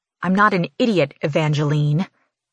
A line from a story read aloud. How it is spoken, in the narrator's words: growl